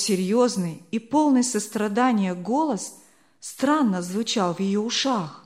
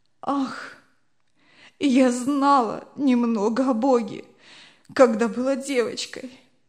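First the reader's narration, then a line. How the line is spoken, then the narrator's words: Sobbing. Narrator (Russian): отвечала несчастная, рыдая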